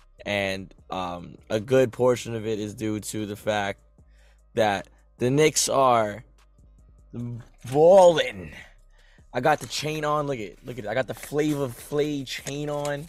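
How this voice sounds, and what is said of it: Hoarse voice with cracking. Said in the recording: “you hear my voice, everybody? I am hoarse ... excuse the voice crack ... My voice is hoarse”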